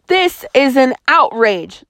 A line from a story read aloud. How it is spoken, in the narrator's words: the colonel shouted